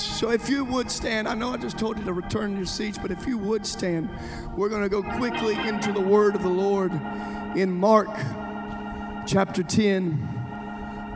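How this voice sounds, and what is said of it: Very hoarse, worn-out voice. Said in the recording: “excuse my voice tonight. I'm very hoarse... Pray for my voice. I've prayed for about 220 people in a line individually last night at a conference, and that's why my voice is gone tonight”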